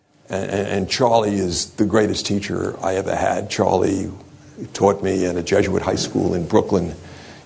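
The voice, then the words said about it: Brooklyn accent. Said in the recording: “You can tell this is a Brooklyn accent”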